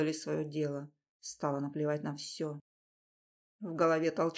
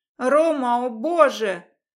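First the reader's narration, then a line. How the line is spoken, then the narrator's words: Ecstatic cry. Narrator (Russian): вскрикнула, падая в пропасть нирваны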